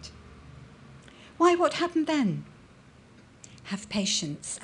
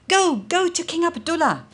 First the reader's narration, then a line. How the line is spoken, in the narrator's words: the soldiers shouted